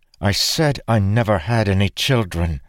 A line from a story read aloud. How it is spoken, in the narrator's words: she said fiercely